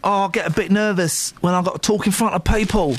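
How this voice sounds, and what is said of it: Put-on Cockney accent. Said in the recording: “why I'm doing a Cockney voice”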